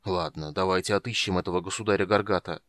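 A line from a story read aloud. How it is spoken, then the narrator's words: Ashamed mutter. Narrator (Russian): стыдясь пробормотал Стурм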